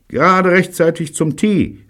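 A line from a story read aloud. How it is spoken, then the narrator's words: Calling out. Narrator (German): rief Bunny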